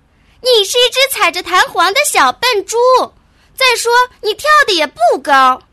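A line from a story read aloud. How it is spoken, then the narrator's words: Shrieking parrot. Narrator (Chinese): 鹦鹉尖叫着说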